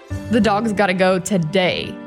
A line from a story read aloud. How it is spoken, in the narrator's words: she said with a chuckle